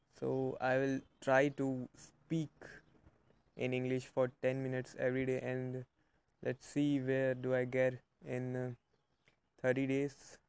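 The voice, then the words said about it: Non-native English accent. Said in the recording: “as you can obviously hear, that my accent is also not good”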